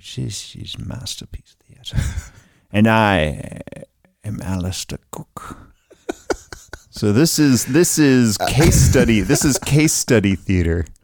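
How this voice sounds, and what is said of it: Impression of Alistair Cooke. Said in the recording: “how great that impression is”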